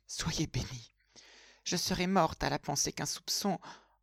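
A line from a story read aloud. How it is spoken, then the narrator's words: Murmuring. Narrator (French): murmurait-elle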